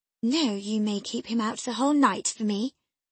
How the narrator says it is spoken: I answered

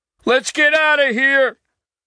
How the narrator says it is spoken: Hicks yelling

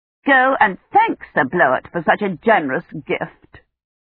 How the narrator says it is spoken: Imani said coldly

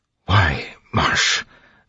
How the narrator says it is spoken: Sazed whispered

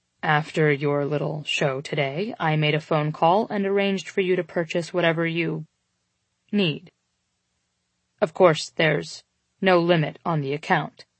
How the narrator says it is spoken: he stated flatly

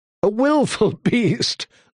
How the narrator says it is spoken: laughed a handsome young man

